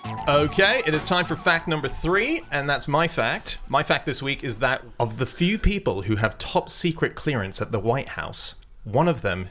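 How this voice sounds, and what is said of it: International, slightly North American accent. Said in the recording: “you just have an international accent, like from as if you went to international school ... similar slightly North American weird accent ... you don't really sound very Aussie”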